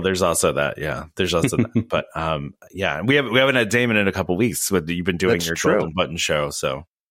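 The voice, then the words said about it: Sick, weakened voice. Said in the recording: “I'm a little under the weather and my voice is not all there. So I sound a little.”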